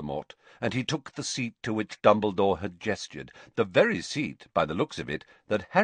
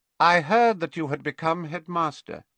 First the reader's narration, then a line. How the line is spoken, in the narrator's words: he said, and his voice was slightly higher and colder than it had been